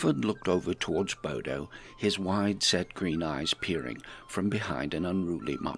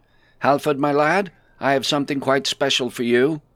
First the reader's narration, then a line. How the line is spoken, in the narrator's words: Bodo called out